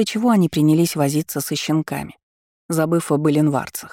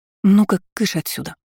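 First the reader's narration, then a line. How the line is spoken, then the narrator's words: Quiet declaration. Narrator (Russian): негромко заявила то и мама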